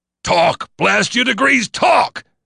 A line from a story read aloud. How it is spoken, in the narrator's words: roared